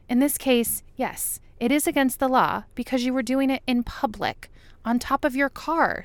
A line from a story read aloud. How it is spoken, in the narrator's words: Scully says through clenched teeth